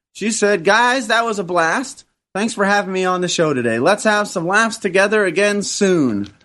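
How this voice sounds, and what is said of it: Put-on accent reading a letter. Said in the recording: “I like the way you did the accent.”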